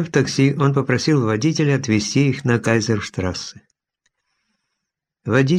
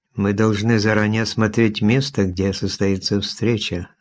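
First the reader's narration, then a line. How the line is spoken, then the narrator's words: Plain. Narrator (Russian): сказала Лариса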